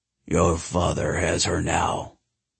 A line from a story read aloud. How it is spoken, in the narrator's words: the shadow rumbled